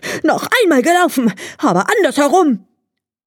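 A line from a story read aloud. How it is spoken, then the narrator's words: Furious shout. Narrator (German): Der Hase, ganz außer sich vor Ärger, schrie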